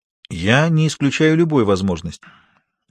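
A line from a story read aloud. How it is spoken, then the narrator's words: Calm. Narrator (Russian): тем же спокойным голосом произнесла Мария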